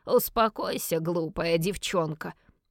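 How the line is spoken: Displeased grumbling. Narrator (Russian): проворчал отец недовольно

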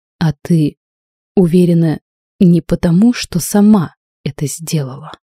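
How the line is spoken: Slow, near-stammering question. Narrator (Russian): Медленно, чуть не заикаясь, он спросил

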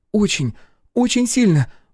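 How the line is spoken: Exclamation. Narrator (Russian): воскликнула Алиса

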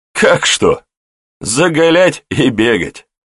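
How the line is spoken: Young man chuckling. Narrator (Russian): Хохотнул парень

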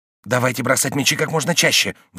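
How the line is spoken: Agitated. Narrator (Russian): взволнованно сказал он

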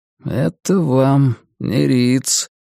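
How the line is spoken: Muttered. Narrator (Russian): пробормотал он

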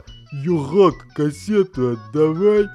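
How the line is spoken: Babbling. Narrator (Russian): тот лепетал что-то вроде

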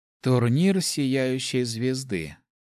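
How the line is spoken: Sighing. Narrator (Russian): вздохнула Церебра

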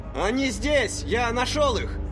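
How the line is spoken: Shouted over shoulder. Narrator (Russian): Крикнул он через плечо

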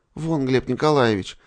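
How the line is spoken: Sudden exclamation. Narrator (Russian): вдруг воскликнула Наташа

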